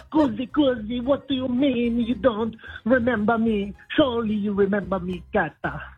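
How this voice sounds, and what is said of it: Put-on Italian accent. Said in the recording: “accent's a little bit different from what I remember. It was more of an international accent, not quite so Italian.”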